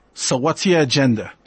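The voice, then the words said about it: Brooklyn accent. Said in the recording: “In a real Brooklyn accent.”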